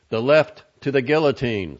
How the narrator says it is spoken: someone in the audience yelled

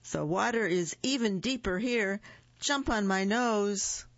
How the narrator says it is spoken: the fox cried

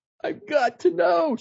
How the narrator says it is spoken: she cried

